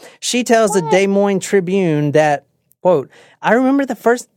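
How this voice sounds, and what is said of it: Usual voice. Nothing is said of it.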